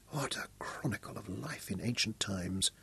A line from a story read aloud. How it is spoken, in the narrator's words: Royan breathed with awe